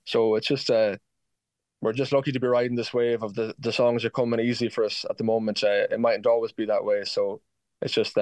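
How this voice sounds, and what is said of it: Excited voice. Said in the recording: “you can probably hear in my voice, Louise, I'm just incredibly excited about the whole thing”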